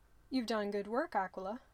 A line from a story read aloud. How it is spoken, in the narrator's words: the tribune said